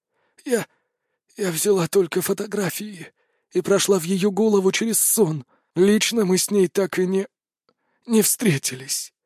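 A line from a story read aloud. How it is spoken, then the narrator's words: Breathy exhale. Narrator (Russian): выдохнул жнец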